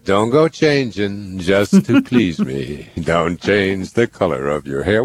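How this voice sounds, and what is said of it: Sung imitation of another person's voice. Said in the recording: “my Billy Joel impersonation”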